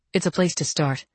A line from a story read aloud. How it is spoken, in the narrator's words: I said